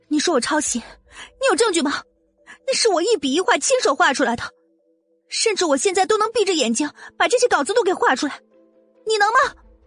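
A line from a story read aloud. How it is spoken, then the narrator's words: Angry, trembling demand. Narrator (Chinese): 愤怒颤声的质问着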